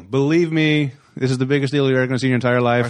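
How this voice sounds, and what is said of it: Donald Trump impression. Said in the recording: “Weird time for me to slip into my Trump impersonation.”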